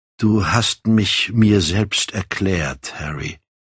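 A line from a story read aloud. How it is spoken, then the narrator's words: Relieved sigh. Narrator (German): sagte er, wie mit einem Seufzer der Erleichterung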